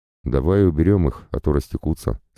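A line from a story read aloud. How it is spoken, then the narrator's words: Plain. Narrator (Russian): сказал Тан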